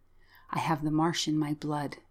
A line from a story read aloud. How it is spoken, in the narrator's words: she whispered